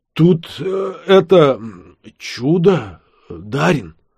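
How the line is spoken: Voice regained. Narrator (Russian): Тарак снова обрел голос

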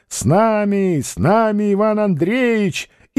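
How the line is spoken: Group shouting. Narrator (Russian): Стрельцы закричали

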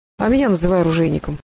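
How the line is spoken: Gruff old man's mutter. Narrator (Russian): буркнул старик

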